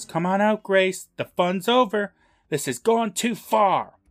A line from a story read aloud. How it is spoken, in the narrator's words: he yells